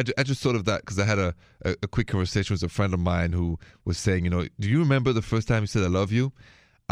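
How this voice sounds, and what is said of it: French accent from Paris. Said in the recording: “that accent, c'est français, French from Paris”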